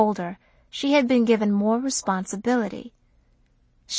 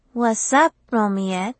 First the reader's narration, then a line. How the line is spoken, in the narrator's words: Malaika said coolly